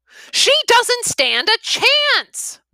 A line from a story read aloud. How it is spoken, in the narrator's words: Mira shouts